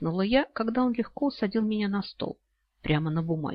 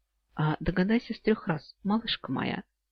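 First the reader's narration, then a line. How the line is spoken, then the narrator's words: Slightly hoarse voice. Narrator (Russian): чуть хриплого голоса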